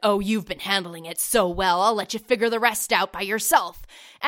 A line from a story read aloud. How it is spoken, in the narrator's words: Bruce just grunts out